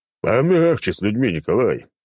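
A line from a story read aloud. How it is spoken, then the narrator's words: Deep bass voice. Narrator (Russian): пробасил Черномор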